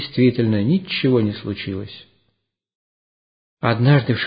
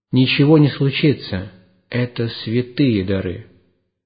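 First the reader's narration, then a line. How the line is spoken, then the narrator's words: Calm lordly reply. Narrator (Russian): владыка спокойно ответил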